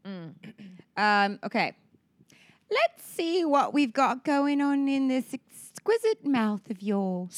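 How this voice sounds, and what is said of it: Slight put-on British accent, proper. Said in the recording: “Proper, speaks with a slight British accent ... He wants to hear her English accent ... He wants to hear my slight British accent.”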